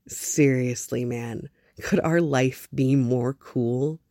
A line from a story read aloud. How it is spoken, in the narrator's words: laughed out loud